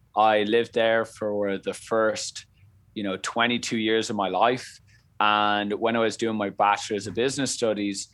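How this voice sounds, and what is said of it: Irish Dublin accent. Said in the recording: “as you can hear on the accent there, I come from Ireland, Dublin”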